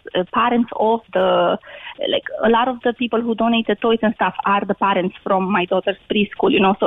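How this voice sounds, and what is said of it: Romanian accent in English. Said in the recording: “your accent is not of Glaunton... I'm originally from Romania”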